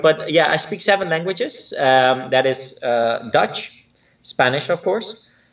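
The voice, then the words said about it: Hard-to-place foreign accent. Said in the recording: “I don't have a true Dutch accent or a true Spanish accent. I have an accent. ... are you from Australia? ... I can't place your accent.”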